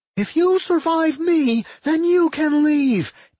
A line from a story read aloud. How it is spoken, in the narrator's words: Anodyne screamed